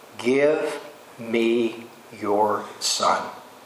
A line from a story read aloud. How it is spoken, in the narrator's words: he calmly said